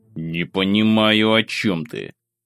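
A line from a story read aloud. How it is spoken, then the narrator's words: Irritated, through gritted teeth. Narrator (Russian): Сквозь зубы бросил я, раздражаясь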